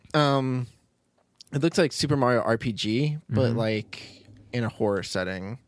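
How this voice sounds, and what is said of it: Choked-up, strained voice. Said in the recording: “I'm getting all choked up again”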